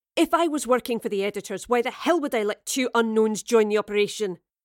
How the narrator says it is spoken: barked, finally losing her patience

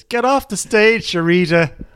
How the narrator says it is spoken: somebody just shouts

